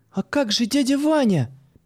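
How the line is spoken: Exclaiming. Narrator (Russian): воскликнула Юля

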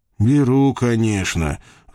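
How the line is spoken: Sigh. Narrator (Russian): вздохнул я

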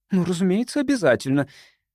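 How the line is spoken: Emphatic, brooking no argument. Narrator (Russian): воскликнула она тоном, исключающим всякую возможность дискуссии

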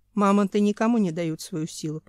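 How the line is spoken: Instructive tone. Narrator (Russian): поучительным тоном сказал Семен

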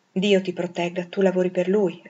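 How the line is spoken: Plain. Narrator (Italian): rispose

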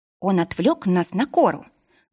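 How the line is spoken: Angry. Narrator (Russian): зло сказала Киара

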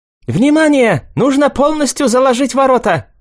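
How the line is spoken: Shouted. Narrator (Russian): крикнул Цинь-Лун

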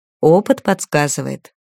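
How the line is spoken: Cold smirk. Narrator (Russian): холодно усмехнулся Иржин

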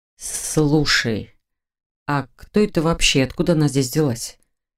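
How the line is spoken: Quiet address. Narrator (Russian): Тихо обратился Ронан к брату

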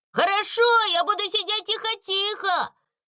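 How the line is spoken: Shouting. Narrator (Russian): закричал Дональд

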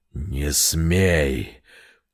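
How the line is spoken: Growling like wounded animal. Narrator (Russian): Он издал рычание, похожее на стон раненого зверя

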